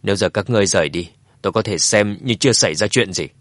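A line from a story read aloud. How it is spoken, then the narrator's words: Cold speech. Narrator (Vietnamese): Dương Chấn lại nhíu mày lạnh lùng nói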